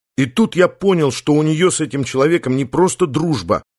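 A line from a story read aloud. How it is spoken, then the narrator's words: Angry telling. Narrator (Russian): рассказывал Никита, сердито раздувая ноздри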